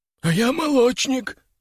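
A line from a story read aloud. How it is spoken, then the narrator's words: Hoarse wheeze. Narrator (Russian): прохрипел второй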